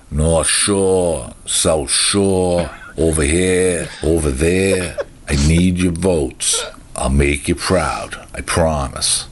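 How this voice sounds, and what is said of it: Strong Boston accent. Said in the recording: “Hey, my fellow Bostonians... I take pride and passion in my accent... I get the best frickin' accent anywhere”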